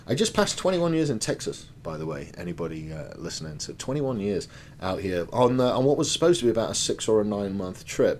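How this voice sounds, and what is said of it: European accent. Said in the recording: “Obviously, from my accent, you can tell I'm European.”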